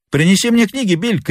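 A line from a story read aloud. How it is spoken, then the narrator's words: Shout. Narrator (Russian): крикнул он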